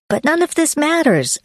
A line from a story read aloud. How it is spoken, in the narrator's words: I exclaimed